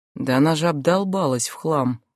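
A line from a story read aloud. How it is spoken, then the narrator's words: Whisper. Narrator (Russian): говорит Марат шепотом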